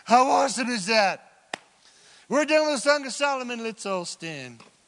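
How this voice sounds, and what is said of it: Shouting. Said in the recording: “Sorry I'm shouting”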